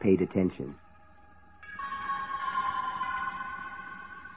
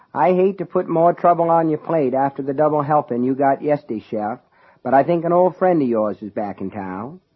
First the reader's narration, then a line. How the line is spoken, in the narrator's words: Sonny said in his drawling down east accent